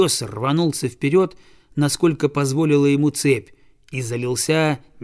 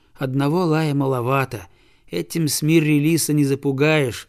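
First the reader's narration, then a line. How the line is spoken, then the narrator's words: Boy sighing. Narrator (Russian): вздохнул мальчик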